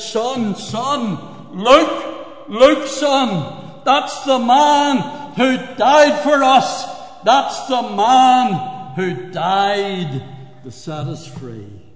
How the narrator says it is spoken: the black man sobbing, with tears running down his cheeks, he said

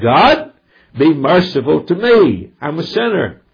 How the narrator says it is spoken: the publican cried

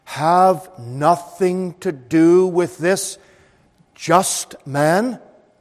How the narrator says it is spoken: his wife said to him solemnly, seriously

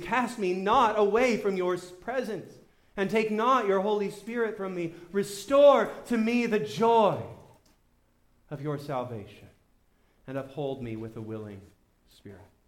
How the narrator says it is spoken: David pleads

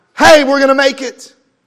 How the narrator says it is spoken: the disciples were hollering out

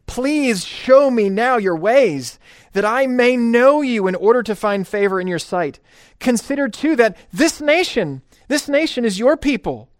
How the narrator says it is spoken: this is the pleading

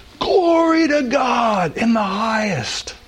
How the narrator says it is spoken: sang or shouted

